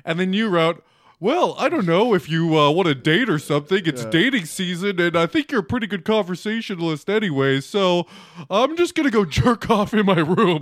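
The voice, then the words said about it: Dumb guy voice. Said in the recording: “Now my voice is that of a dumb guy”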